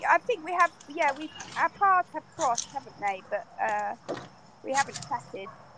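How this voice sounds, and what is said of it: British accent. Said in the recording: “her accent sounds... UK... United Kingdom”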